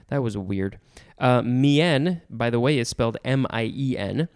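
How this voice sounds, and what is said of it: Usual voice. Nothing is said of it.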